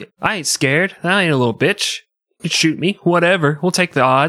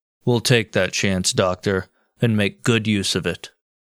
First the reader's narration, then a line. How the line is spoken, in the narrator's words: Garfield calmly replied